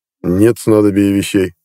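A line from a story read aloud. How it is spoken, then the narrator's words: Snort. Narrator (Russian): хмыкнул Жерисар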